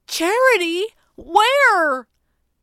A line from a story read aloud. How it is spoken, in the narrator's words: Jeremy sputtered